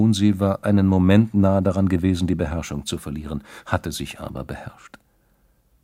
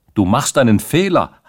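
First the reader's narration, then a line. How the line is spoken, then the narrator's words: Loud shout. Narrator (German): hatte Rantzau da mit so lauter Stimme gerufen, dass alle, die sich in der Nähe befanden, es hören konnten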